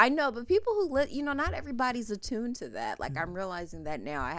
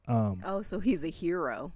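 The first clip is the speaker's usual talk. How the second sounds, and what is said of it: Sarcastic delivery. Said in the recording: “I'm being sarcastic.”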